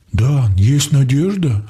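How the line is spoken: Confused. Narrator (Russian): Ади растерянно

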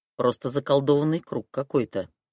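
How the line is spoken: Hmphed. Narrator (Russian): хмыкнул он

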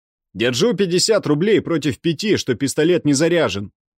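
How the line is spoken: Shouting. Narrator (Russian): закричал третий

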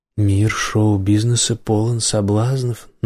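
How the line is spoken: Creaky voice. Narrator (Russian): напомнила скрипучим голосом

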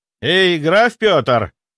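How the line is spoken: Shouting. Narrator (Russian): кричал

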